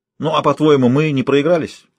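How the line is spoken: Snapping retort. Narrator (Russian): огрызнулся

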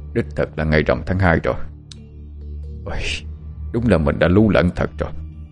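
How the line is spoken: Puzzled muttering. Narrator (Vietnamese): Viên quan nhíu mày một cái rồi lẩm bẩm

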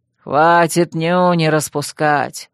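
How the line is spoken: Deliberately rough, telepathic. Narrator (Russian): Нарочито грубо, ментально проговорил лорд Каллахан

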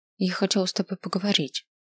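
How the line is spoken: Quiet. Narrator (Russian): негромко сказал я

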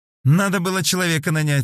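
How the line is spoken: Giggling. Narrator (Russian): хихикнула Ангелина

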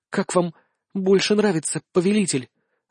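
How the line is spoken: Hot breathy exhale. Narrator (Russian): Жарко выдохнула она

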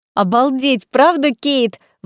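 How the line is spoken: Exclamation. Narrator (Russian): воскликнула подруга

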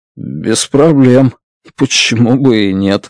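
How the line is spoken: Grumbled. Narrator (Russian): буркнул

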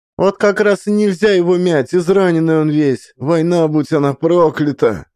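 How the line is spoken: Shouting. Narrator (Russian): закричала

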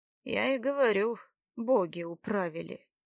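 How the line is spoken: Heavy sigh. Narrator (Russian): тяжело вздохнув, сказал Богумил

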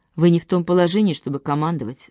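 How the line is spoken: Calm reply. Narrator (Russian): спокойно ответил Лорн

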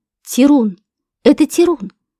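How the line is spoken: Exclaimed. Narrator (Russian): воскликнул Курт

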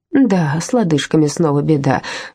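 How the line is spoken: Sigh. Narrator (Russian): вздохнула Анна

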